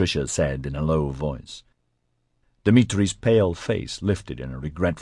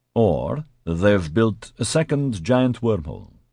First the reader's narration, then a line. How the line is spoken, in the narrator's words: Dimitri said cheerfully